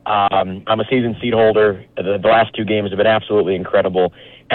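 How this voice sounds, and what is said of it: Rough, hoarse voice. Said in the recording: “My voice is a little rough right now.”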